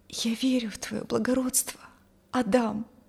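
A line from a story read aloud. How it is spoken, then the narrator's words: Quiet. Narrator (Russian): Тихо произнесла она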